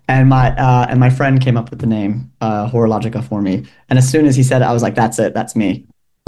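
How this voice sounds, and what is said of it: American Midwestern accent. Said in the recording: “am I detecting an accent? ... Yes, I'm from Milwaukee, Wisconsin.”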